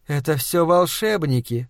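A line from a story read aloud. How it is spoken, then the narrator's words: Whisper. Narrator (Russian): шепнула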